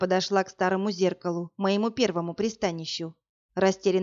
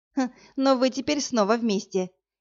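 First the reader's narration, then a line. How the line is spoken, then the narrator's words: Snide girlish giggle. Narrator (Russian): ехидно хихикнула девушка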